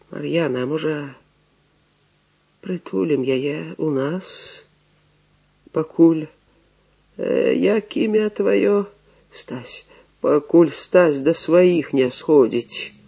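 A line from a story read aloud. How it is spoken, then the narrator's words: Old man, muffled near-whisper. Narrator (Russian): Старий глухо, ледве не шептом, сказав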